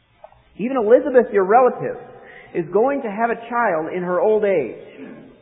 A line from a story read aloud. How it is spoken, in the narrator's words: said Gabriel